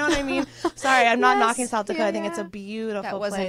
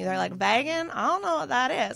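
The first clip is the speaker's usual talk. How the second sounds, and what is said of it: Put-on North Carolina accent. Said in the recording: “That wasn't ... Even close ... the accent ... I was doing North Carolina. ... that was definitely North Carolina.”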